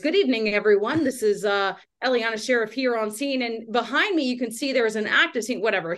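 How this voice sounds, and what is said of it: Newscaster voice. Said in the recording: “break into a news voice ... lean into that voice a little bit more”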